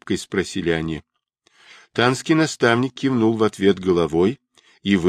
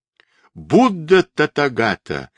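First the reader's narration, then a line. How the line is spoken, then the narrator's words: Loud exclamation. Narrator (Russian): воскликнул Сунь-Укун громким голосом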